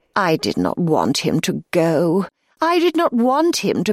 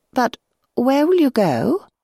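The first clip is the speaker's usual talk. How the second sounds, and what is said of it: Timid little voice. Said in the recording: “in a timid little voice”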